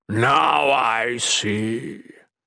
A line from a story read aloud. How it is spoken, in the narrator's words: Mikik rumbled